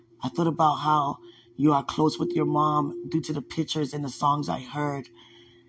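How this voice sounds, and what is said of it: Tearful, emotional voice. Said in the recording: “I was crying so much on here. I couldn't control my cry. You can hear it in my voice a little bit.”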